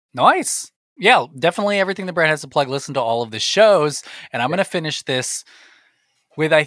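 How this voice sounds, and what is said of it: Usual voice. Nothing is said of it.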